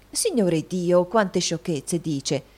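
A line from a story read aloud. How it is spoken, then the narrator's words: Exclamation. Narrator (Italian): esclamò la signora Lillywick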